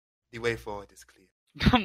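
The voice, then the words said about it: Put-on Jamaican and Nigerian mixed accent. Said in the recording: “it sounds Jamaican ... a weird mix of like Jamaican and like Nigerian ... like West African ... It's West Jamaican”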